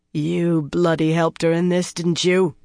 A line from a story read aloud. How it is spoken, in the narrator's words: she growled